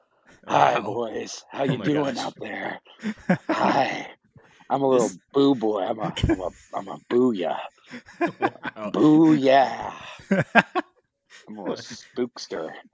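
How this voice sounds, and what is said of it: Put-on scary spooky voice. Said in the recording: “This is not his normal voice ... my scary voice ... scary voice”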